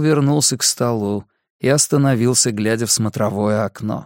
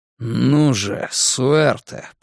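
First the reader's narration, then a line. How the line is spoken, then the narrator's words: Muttered. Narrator (Russian): пробормотал он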